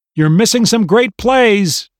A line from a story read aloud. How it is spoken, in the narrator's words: Dad called out from the living room